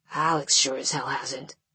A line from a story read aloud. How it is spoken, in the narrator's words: I hear her mumble